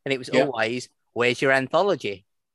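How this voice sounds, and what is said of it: Strange accent, Paul Whitehouse impression. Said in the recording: “Always in a really strange accent ... was that a Paul Whitehouse?”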